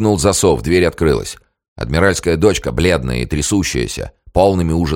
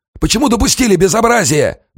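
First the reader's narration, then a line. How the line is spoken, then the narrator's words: Barked shout. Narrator (Russian): гаркнул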